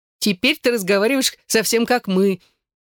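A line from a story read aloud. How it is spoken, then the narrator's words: Laughing. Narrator (Russian): засмеялась Эшлинг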